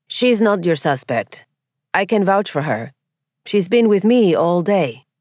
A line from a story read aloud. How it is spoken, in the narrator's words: Santiago said evenly